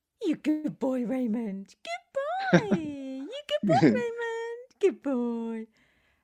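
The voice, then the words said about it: Voice used for talking to a dog. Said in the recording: “Do you have a dog voice, Matt? Can I do my dog voice for you? ... Okay, that was my dog voice.”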